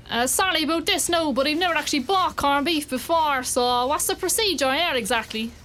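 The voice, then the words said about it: Strong Cork Irish accent. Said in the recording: “my Cork accent gets 10 times stronger”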